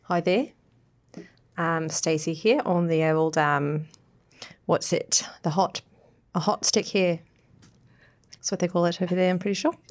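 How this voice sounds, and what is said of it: Put-on New Zealand accent. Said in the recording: “say hello with New Zealand accents”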